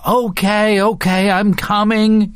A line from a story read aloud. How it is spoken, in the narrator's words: he yells, also fearing to hear number three